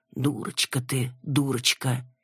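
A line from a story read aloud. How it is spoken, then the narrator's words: Reproachful sighing grumble. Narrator (Russian): вздыхают с укором, ворчат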